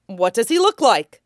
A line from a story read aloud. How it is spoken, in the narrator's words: Usopp asks, as he bellows out